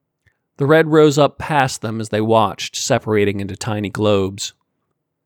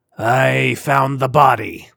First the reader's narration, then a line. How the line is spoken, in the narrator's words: Sar growled